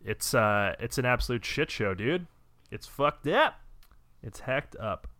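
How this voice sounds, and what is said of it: Raised, loud ranting voice. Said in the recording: “I mean to raise my voice here”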